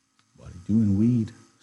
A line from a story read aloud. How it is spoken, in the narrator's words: Slim asked calmly